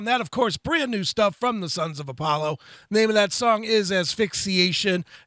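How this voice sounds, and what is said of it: Energetic radio announcer voice. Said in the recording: “Listen to that radio voice of yours, man. It's just awesome.”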